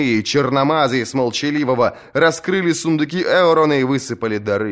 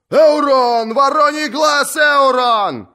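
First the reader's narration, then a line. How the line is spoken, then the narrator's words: Yelling. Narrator (Russian): завопил рыжий гребец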